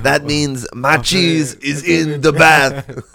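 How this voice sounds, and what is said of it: Mock French accent. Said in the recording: “my entire French accent”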